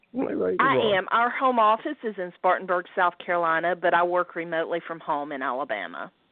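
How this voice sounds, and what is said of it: Southern US accent. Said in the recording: “that accent from Spartanburg, South Carolina... a good southern accent”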